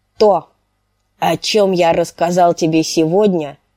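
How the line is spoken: Gruffer than usual. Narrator (Russian): проговорил он еще более грубо, чем обычно

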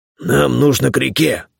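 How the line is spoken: Hoarse bass voice. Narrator (Russian): услышал я хриплый бас

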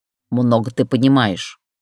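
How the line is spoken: Grumbled. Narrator (Russian): проворчала Штукина

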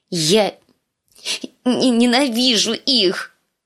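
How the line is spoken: Sobbing, choked out. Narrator (Russian): выдавила сквозь рыдание раскрасневшаяся Ария

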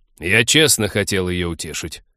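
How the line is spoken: Angry interruption. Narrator (Russian): сердито перебил друга Тед, не желая измерять столь важную материю какими-то процентами

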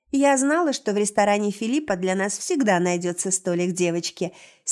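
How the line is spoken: Cheerful laughing. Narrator (Russian): смеется весело

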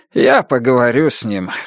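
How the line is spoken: Sigh. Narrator (Russian): вздохнул Хью

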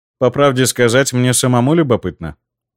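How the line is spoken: Calm. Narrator (Russian): спокойно произнес я

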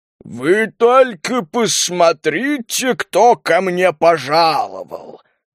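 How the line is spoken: Mocking giant's growl. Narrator (Russian): насмешливо прорычал гигантский кобальт

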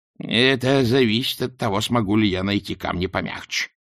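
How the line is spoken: Worried grumbling mother. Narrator (Russian): озабоченно пробурчала матушка

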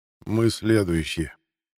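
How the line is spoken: Quiet. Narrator (Russian): негромко произнес генерал Флан

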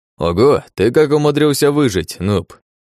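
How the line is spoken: Mocking question. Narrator (Russian): насмешливо спросил один из орков

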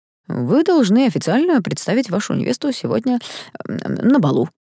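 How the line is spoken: Mumbling. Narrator (Russian): промямлил ректор

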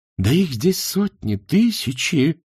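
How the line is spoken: Exclaimed. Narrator (Russian): воскликнул профессор современного руносложения

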